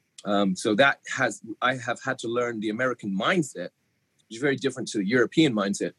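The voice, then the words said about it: English accent mixed with American. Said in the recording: “if my accent goes in and out of England, it's because I've been in America 20 years, but born in England.”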